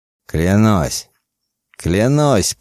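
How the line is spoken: Loud, repeated. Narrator (Russian): повторил он громко

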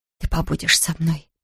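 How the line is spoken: Whisper. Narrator (Russian): прошептала

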